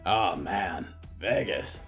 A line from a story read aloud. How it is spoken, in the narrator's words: Barb sighed